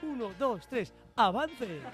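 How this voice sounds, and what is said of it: Announcer voice of a slot machine. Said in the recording (Spanish): “las máquinas tragaperras ... hay que poner la voz”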